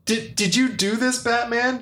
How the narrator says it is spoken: Joker says between laughs

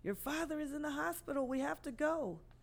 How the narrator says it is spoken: My mom screamed

